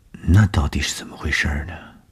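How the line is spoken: Shy murmur. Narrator (Chinese): 东风的脸上飞过红晕，喃喃地说

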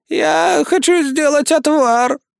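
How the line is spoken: Creaky old woman's voice. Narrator (Russian): проскрипела она своим старушечьим голосом

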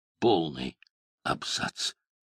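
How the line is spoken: Weakening voice. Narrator (Russian): сказал он слабеющим голосом

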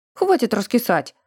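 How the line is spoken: Irritated sharp shout. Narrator (Russian): прикрикнул на нас Тиргастый, раздраженно

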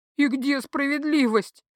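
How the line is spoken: Moaned. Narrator (Russian): простонала я

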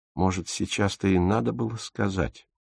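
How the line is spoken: Sighing. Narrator (Russian): вздохнула Фрида

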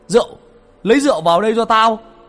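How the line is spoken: Shouting. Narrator (Vietnamese): Có tiếng A Vàng hét lên

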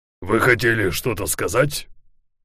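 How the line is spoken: Menacing question. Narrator (Russian): грозно спросил Ларсен

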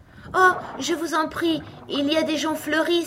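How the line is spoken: Sudden joyful exclamation. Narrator (French): s'écria Alice dans un brusque transport de joie

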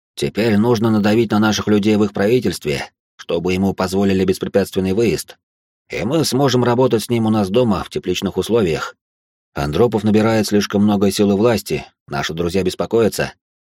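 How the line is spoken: Plain. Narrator (Russian): ответил

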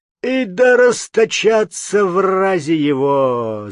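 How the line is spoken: Deep bass roar. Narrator (Russian): взревел басом Замятня Опалев

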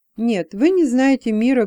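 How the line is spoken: Bitter laugh. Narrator (Russian): горько рассмеялась Элла

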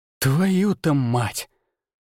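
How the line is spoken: Startled exhale. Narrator (Russian): выдохнул я

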